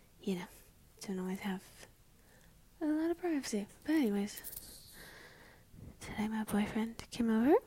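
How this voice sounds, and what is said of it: Whispering, quiet voice. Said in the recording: “I don't know why I'm whispering. ... I'm sorry for being quiet.”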